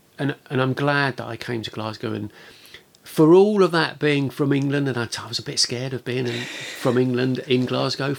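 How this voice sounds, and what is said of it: English accent. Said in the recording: “I've got an English accent ... I was so conscious of having an English accent”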